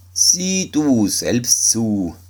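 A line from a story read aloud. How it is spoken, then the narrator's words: Plain. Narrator (German): sagte die Mutter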